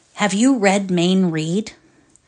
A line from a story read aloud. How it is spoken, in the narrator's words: He cleared his throat morosely, asked